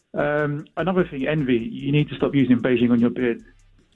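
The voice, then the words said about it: London accent. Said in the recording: “I love your accent... the brother from London”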